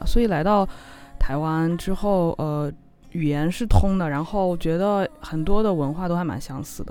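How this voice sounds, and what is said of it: Noticeable mainland Chinese Mandarin accent. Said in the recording (Chinese): “听口音就知道你是中国人嘛 ... 我口音太明显了”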